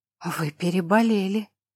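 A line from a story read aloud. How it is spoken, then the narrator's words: Breathed out. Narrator (Russian): выдохнул он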